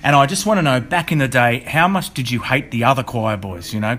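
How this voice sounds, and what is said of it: Australian accent. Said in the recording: “I'm an Australian, as you can tell from my accent”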